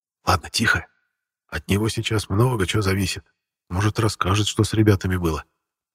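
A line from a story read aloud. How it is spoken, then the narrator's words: Whispered. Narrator (Russian): шепотом сказал Серега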